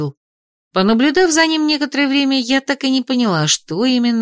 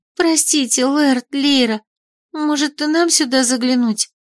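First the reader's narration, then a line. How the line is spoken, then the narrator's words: Timid. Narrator (Russian): Вдруг робко предложила Беляна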